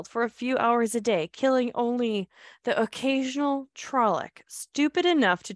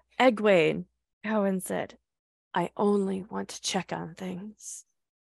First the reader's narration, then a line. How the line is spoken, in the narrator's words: she said calmly